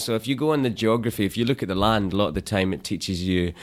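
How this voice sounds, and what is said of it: Charming, rhythmic Scottish accent. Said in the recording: “sections of your accent. We find it incredibly charming ... there's a nice poetic rhythm to the way that you speak ... the Scottish accent ... it's native to your mouth”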